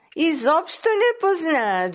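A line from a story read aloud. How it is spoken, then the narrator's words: Joyful snort. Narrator (Bulgarian): Джуджето изхръкнало радостно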